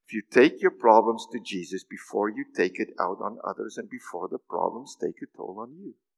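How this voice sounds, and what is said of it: Speaking very fast. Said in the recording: “I said that really fast”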